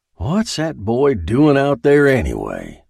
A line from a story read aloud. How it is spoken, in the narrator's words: he growled